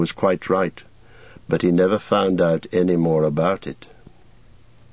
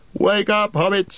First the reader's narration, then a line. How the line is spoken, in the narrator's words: he cried